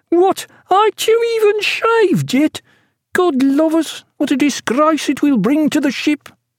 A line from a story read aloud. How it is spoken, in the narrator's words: In a shrill, complaining voice, he cried